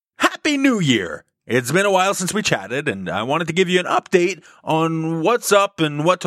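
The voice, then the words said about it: Announcer-style radio voice. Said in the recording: “I gotta get back into my radio voice.”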